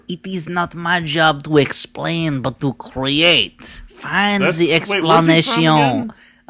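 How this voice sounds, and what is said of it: Put-on French accent imitating someone. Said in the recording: “But that's a French accent... I just know that's how he talks.”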